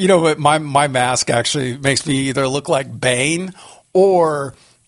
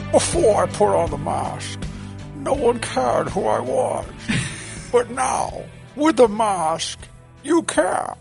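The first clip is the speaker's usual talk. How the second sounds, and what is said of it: Bane villain character voice. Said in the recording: “do my Bane voice with my mask on”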